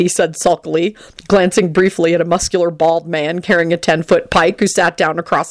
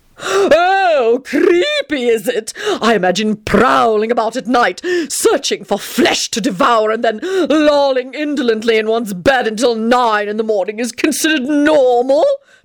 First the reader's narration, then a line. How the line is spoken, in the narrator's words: Tony howled triumphantly